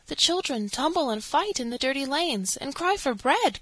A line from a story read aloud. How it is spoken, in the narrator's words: cried Poppypink